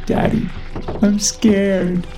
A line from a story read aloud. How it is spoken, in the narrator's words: Ava whimpered